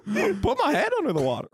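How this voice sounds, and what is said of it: Pleasant Goofy cartoon voice impression. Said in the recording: “your Goofy impression ... pleasant”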